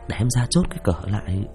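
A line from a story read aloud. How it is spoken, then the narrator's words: Whispered. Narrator (Vietnamese): thì thầm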